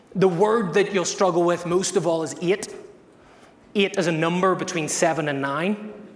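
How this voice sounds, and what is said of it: Northern Irish Belfast accent. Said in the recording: “I'm from Ireland. I'm from Belfast in the north ... my accent has decided to not relocate”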